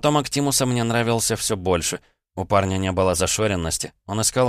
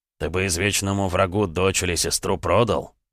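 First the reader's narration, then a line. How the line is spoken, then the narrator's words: Grumbling. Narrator (Russian): пробурчал серф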